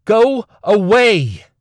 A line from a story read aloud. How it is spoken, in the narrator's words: She shouted